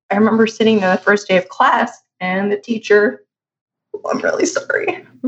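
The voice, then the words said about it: Emotional, voice breaking up. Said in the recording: “I get a little emotional talking about this”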